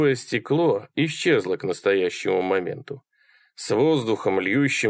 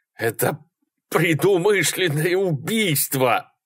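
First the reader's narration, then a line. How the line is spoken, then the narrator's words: Forced out. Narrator (Russian): наконец выдавил он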